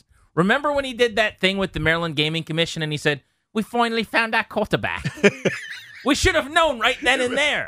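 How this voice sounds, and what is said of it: Put-on accent. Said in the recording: “Why are you speaking with that accent, sir?”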